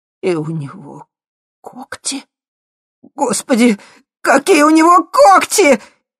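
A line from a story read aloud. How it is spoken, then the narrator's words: Hysterical wail. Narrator (Russian): истерично взвыл Свирский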